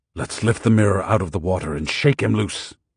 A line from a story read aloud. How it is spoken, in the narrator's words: Don Juan said in a harsh voice